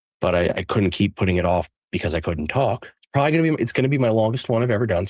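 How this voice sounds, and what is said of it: Damaged, poor-sounding voice. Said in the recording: “apologize for my voice. You're hearing it now. My voice is worse. It's not gotten much better.”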